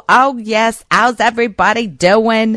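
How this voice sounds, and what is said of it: Imitated New York Bronx accent. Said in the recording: “you get an East Coast accent, you get a New York accent ... She's so New York, so Bronx.”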